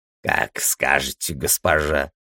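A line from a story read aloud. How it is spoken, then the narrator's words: Hoarse voice. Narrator (Russian): раздался хриплый голос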